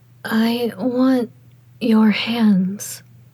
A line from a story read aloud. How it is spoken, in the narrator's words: Xielian breathed out between kisses